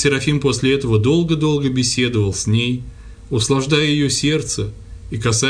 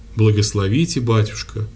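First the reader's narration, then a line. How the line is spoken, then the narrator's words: Humble, calm. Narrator (Russian): ответила Елена Васильевна смиренно и спокойно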